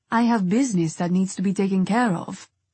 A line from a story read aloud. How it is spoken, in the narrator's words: Renzo said coldly